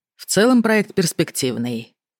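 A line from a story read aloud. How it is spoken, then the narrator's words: Dry, matter-of-fact. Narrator (Russian): Рональд говорил сухо, излагая лишь факты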